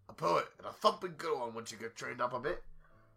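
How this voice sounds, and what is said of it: Mediocre put-on British accent. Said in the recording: “in British accent? ... I can do a bit of a British accent. It's not amazing right now. ... it actually sounds better because of the clogged nose”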